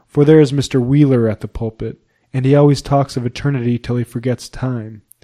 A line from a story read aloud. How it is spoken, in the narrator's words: said Hope in a despairing tone